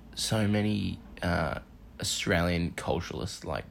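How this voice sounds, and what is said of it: Usual voice. Nothing is said of it.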